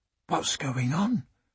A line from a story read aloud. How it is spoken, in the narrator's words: Emma whispered